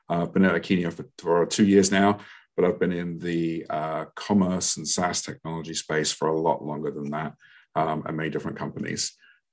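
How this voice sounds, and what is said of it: London English accent. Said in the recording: “originally from London, England, as you can tell by my accent”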